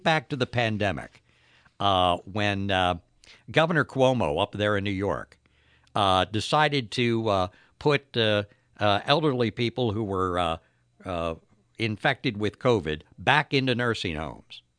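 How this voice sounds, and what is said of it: Strained, failing voice. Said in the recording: “my vocal cords are giving out on me today ... lose my voice”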